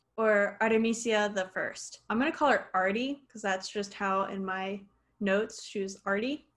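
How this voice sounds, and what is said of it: Spanish accent. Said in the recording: “I'm using my Spanish accent because I can't do anything else about it”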